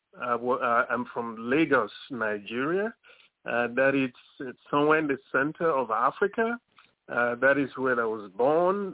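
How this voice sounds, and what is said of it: Beautiful foreign accent. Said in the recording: “you have a beautiful accent”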